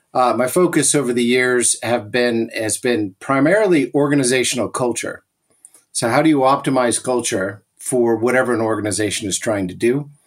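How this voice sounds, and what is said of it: American English accent. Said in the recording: “So you can hear from the accent, ... I'm not originally from Europe. I grew up in the U.S.”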